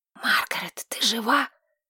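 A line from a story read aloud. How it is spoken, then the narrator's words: Hissing whisper. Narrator (Russian): Свистящий шепот Тамиры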